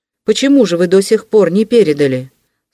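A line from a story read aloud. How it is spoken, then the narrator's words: Stern young man. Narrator (Russian): строго обратился молодой человек к Вельчининову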